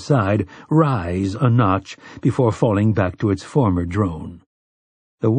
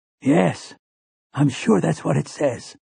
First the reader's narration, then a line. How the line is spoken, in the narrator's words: Callahan whispered back